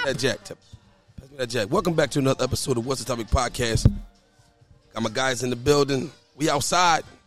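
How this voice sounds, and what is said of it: Slightly hoarse voice. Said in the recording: “My voice a little hoarse”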